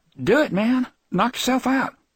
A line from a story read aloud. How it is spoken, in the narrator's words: the hippie said in an unsteady voice